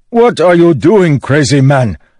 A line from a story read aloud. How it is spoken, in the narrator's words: Lunamor bellowed